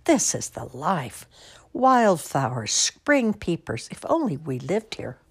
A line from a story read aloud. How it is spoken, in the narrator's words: the town mouse exclaim